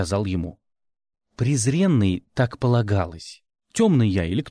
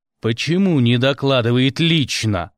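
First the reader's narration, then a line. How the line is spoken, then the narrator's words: Barked. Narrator (Russian): гаркнул я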